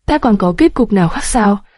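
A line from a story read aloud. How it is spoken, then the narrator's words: Smiling question. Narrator (Vietnamese): Công Tôn Việt mỉm cười hỏi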